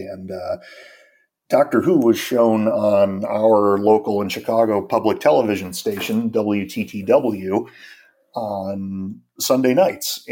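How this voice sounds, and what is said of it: American accent. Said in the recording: “I'm American, as you can tell from the accent”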